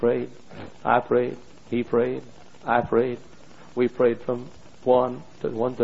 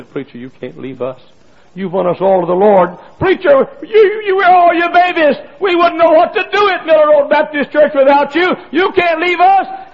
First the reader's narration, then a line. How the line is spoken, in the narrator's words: He cried and said